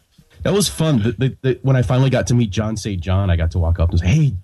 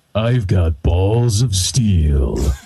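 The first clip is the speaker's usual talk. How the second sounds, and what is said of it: Duke Nukem character voice. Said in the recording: “Do you do a Duke Nukem? Do you do one? ... imitating you”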